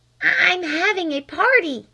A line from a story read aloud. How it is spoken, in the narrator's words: hissed Flame through the keyhole